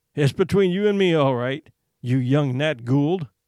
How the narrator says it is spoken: he said, laughing

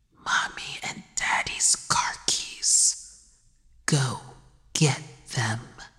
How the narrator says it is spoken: The child killer whispered

